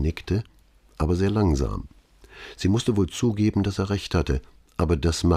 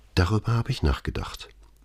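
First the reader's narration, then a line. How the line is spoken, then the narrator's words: Quiet reply. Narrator (German): antwortete mit leiser Stimme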